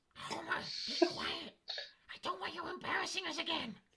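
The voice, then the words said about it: Marge Simpson cartoon voice impression. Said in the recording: “That Marge impression”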